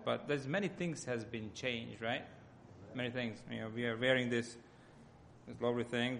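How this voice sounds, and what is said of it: Hungarian accent. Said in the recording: “my accent comes from Hungary”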